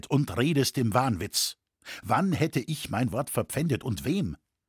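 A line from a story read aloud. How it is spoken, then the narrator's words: Cold. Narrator (German): sagte er kalt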